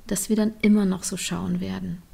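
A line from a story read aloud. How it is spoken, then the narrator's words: Softly said. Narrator (German): sagte Trini leise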